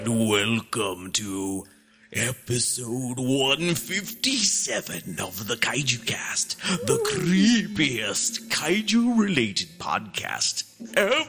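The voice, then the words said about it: Crazy put-on spooky voice. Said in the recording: “in this crazy voice”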